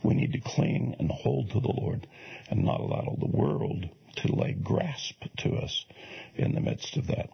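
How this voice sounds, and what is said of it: Worn-out, strained voice. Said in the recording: “my voice is just about given out”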